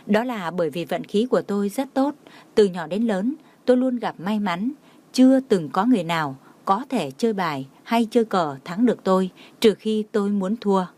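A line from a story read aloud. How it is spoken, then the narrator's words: Smiling. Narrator (Vietnamese): Trang Hạo Nhiên mỉm cười nói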